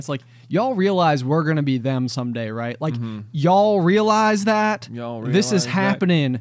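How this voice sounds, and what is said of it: Exaggerated put-on regional accent. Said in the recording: “You just like really dived into that accent. ... My Franklin County roots.”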